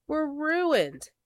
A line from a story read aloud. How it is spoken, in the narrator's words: wailed Blackear